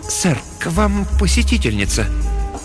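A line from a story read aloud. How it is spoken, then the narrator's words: Tense, uncertain announcement. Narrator (Russian): слуга объявил напряженным, неуверенным голосом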